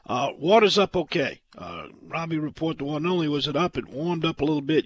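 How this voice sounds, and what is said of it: Hoarse voice from laryngitis. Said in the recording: “cure for my laryngitis”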